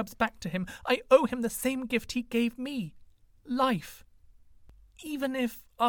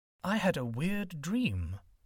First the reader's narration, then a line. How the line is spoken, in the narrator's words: he murmured